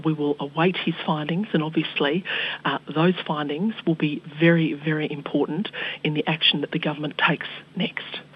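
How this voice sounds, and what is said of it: Strained, struggling voice. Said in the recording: “We can hear that you're struggling. ... sorry about my voice”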